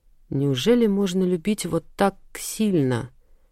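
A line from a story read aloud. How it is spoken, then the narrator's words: Whisper. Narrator (Russian): прошептала девушка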